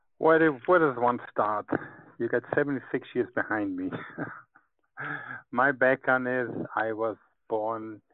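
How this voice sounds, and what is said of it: Mixed Hebrew, German, Brooklyn Jewish accent. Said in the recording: “That gives me a Hebrew accent. ... That gives me my German accent. ... So I have a Hebrew, German, Brooklyn, Jewish accent.”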